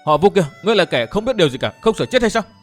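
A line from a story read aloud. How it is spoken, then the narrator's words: Shouting. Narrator (Vietnamese): miệng quát lên với Vô Tư Minh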